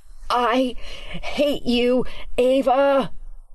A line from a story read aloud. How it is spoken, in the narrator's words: moaning like a wounded animal